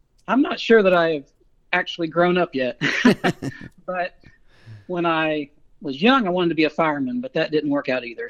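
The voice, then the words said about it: Arkansas Southern US accent. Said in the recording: “born and raised in Central Arkansas, about 50 miles northeast of Little Rock, so that's where the accent comes from”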